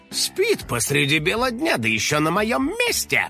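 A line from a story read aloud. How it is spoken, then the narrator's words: Grumbling. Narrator (Russian): проворчал домовой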